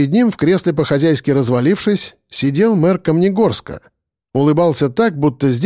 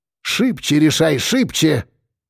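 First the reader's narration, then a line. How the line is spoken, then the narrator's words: Through gritted teeth. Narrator (Russian): процедил Быков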